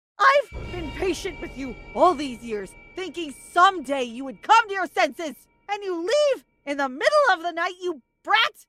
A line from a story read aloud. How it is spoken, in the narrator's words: She sounded so close